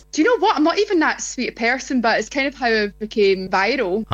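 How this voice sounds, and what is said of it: Distinctive regional accent. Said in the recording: “gorgeous accent ... that's the accent.”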